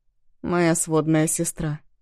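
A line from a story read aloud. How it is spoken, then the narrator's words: Lazy drawl. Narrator (Russian): лениво произнес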